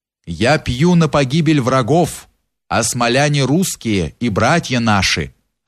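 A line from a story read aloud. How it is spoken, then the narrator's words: Calm. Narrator (Russian): отвечал спокойно Юрий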